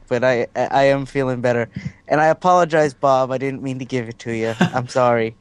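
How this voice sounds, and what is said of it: Voice not fully recovered from illness. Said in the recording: “My voice isn't completely back”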